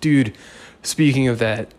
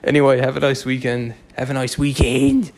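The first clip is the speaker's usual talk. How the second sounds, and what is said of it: Put-on English accent. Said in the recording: “because of the stupid English accent”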